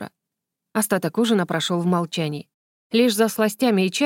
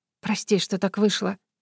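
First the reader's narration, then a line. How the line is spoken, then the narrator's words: Whispered. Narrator (Russian): прошептала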